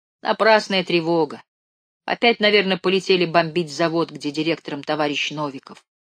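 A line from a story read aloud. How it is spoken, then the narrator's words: Calm. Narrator (Russian): Левка прислушался и спокойно сказал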